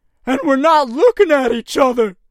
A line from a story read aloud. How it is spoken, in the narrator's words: screeched Jeff